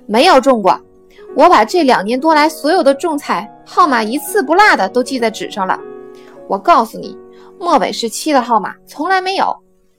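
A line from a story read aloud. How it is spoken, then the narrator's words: Shouting. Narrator (Chinese): 最先说话的那个人又吼道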